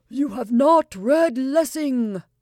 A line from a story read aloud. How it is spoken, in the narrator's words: Shabaldin, shouting loudly